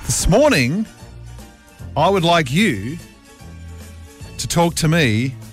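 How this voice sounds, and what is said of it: Slow, drawn-out speech. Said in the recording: “say it slowly ... Have I dragged it out long enough yet?”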